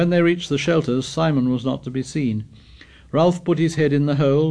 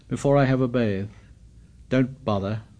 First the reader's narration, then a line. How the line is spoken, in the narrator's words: muttered Jack